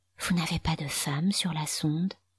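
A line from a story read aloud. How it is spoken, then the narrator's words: Almost whispered question. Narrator (French): demanda Foudre, presque à voix basse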